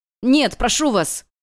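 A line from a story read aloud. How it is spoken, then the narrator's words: Pleading child's shout. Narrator (Russian): умоляюще закричал мальчик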